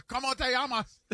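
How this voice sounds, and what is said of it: Spanish with an Osaka-sounding accent. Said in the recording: “Why do you say it like you're from Osaka? ... your Spanish accent sounds like you're from Osaka”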